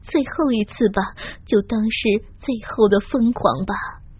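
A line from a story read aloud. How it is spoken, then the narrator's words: Inner soft sigh. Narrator (Chinese): 我在内心中轻叹了一声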